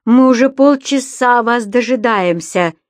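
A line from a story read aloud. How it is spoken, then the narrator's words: Furious growl. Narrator (Russian): в ярости зарычал муж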